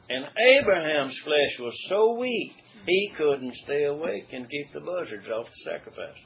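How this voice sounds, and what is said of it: South Arkansas dialect. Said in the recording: “in my country, South Arkansas dialect. ... that's my vernacular.”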